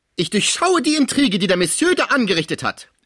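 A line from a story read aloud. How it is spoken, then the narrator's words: Angry mother shouting. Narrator (German): schrie die wütende Mutter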